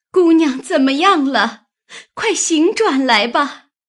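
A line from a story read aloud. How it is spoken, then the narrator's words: Crying out. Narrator (Chinese): 紫鹃只是哭叫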